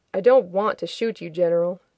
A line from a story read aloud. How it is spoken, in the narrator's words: Shepard said, though his voice was flat